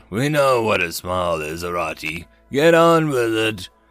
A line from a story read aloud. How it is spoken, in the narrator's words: A voice from the back of the bar grunted